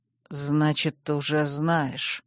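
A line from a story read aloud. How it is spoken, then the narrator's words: Muffled grumble. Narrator (Russian): глухо буркнул он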